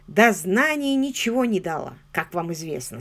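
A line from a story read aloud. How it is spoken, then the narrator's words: Plain. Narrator (Russian): сказал он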